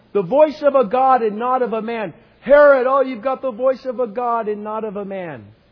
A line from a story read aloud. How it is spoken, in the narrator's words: And they kept shouting it